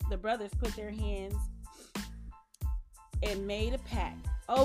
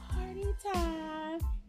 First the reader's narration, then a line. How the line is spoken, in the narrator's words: he yelled, sounding like an elf